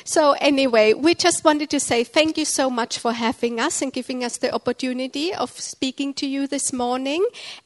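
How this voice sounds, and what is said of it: Noticeably accented English. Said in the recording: “if you can understand my accent.”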